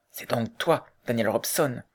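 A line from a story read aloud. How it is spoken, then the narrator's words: Quiet question. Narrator (French): demanda tout bas l'homme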